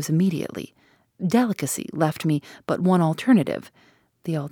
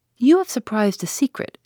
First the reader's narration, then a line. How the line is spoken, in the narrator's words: she said